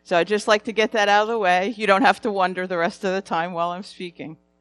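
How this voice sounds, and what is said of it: New Jersey accent. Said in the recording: “you'll notice that I'm from New Jersey. I have an accent.”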